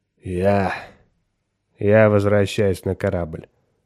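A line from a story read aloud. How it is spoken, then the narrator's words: Muttered. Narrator (Russian): пробормотал он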